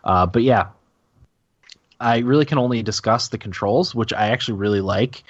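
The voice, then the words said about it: Slightly hoarse voice. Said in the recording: “that's why I'm a little hoarse too”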